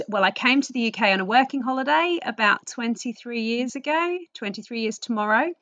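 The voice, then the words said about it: Australian accent. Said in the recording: “I am originally from Australia, which you'll probably pick up from my accent”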